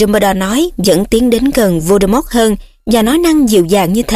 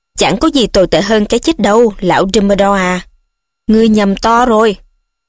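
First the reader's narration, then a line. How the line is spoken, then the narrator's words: Growling. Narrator (Vietnamese): Voldemort gầm gừ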